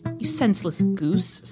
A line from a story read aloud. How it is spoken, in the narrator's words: snarled the dwarf